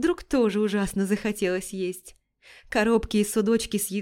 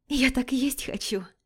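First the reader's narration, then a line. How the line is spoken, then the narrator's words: Soft laughing whisper. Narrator (Russian): она тихонько прошептала, смеясь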